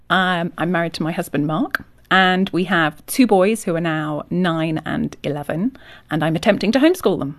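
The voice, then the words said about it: English Yorkshire accent. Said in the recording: “accent. So you're from England. ... I'm from England, from Yorkshire.”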